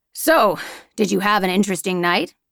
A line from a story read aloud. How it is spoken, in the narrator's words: asks my boss with a chuckle